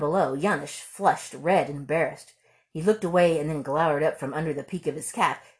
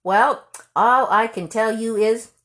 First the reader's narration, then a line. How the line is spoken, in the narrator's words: called out slowly